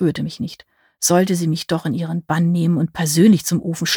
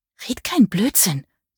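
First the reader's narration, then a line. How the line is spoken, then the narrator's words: Hiss. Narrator (German): zischte sie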